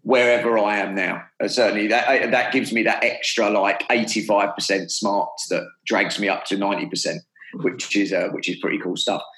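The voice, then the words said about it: British accent, calm soothing voice. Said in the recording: “Your British accent, it just makes me so calm.”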